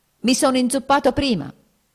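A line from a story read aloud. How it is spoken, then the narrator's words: Almost shouting. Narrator (Italian): gridò quasi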